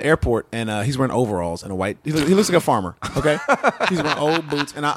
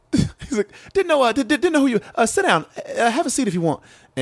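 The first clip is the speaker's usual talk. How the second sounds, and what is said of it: Imitates another person's voice. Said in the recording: “great impression.”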